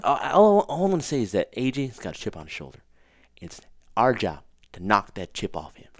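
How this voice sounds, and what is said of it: Imitates another person's voice. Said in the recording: “What's your AJ? Can you do an AJ? ... My accent. ... My accents are terrible.”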